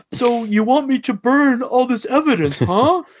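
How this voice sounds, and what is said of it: Imitates another person's voice. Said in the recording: “just the way he talks is funny ... his impression was great”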